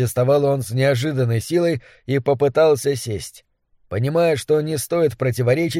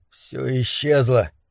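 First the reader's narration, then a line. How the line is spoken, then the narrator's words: Mumbling. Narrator (Russian): пробормотал он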